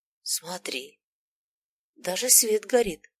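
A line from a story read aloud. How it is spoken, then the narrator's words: Whispered. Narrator (Russian): шепнул Зим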